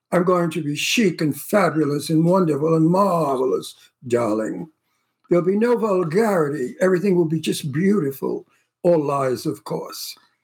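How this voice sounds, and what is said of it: Put-on posh English accent. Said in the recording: “I'm going to speak with a bit of an English accent”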